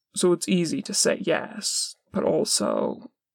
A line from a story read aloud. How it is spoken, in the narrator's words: Dean sighs